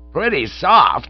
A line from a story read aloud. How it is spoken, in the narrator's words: he cried